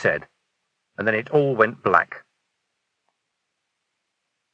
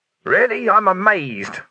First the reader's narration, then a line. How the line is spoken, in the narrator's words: growled Vimes